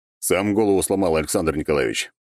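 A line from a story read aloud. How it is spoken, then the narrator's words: Gloomy dragon's voice. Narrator (Russian): мрачно сказал дракон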